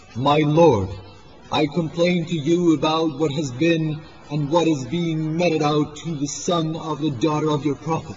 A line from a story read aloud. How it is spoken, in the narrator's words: exclaimed